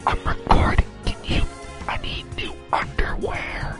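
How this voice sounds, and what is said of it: Whispering. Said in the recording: “stop whispering ... Stop whispering. We can hear you.”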